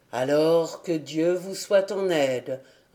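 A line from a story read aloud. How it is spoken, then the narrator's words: Pastor's reply. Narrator (French): répondit le pasteur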